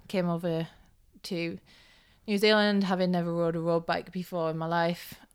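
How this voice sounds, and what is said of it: Northeast English accent. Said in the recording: “it's not a Kiwi accent ... I'm from a little town called Hartlepool, which is in the northeast of England ... I'm hoping the accent is changing”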